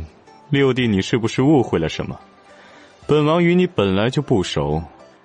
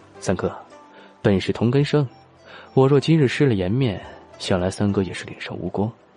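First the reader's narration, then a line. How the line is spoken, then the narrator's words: Low voice. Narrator (Chinese): 低声说道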